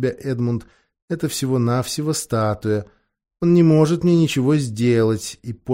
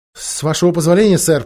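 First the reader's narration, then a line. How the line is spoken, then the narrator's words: Trembling babble. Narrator (Russian): пролепетал Эдмунд, дрожа так, что едва мог шевелить губами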